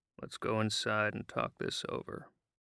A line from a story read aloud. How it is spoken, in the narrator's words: he said very calmly